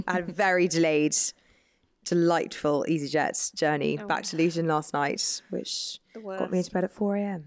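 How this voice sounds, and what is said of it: Slightly hoarse, tired voice. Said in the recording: “I feel a bit hoarse and a bit out of it this morning... So I'm a bit ropey.”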